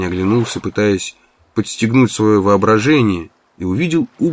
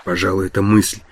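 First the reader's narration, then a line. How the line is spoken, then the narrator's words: Muttered. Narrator (Russian): пробормотал он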